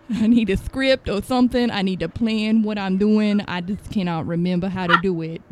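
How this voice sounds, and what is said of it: Imitates another person's voice. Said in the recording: “I could talk like Leon Phelps for a pretty long time ... I could talk like this for a pretty long time”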